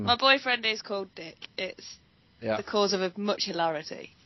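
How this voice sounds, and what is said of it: Speaks with a noticeable accent. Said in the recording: “You got a beautiful accent ... it's so sexy.”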